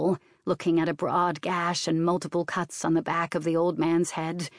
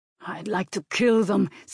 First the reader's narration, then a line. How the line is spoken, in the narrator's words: said the man through gritted teeth